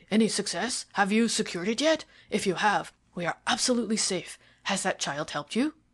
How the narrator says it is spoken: he cried

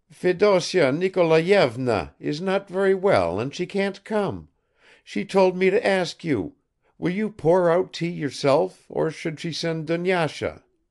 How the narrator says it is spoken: In a shrill voice she said

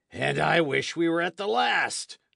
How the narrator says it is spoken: cried J

